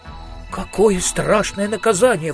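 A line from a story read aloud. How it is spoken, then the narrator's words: Exclamation. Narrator (Russian): воскликнул Маркоу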